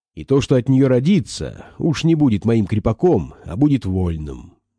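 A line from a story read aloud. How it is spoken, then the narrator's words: Plain. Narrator (Russian): сказал Вишневский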